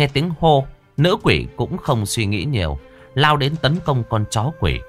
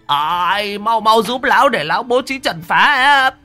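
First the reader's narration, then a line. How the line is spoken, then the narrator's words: Old man shouting. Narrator (Vietnamese): Lão Huấn hét lên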